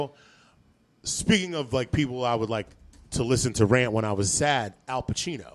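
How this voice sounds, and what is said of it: Usual voice. Nothing is said of it.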